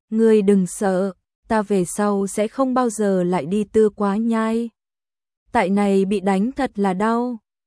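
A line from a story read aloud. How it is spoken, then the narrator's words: Smiling. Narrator (Vietnamese): Lâm Ninh mỉm cười nói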